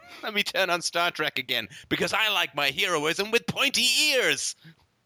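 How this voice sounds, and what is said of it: Vaguely British accent. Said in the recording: “some waffly guy with a vaguely British accent”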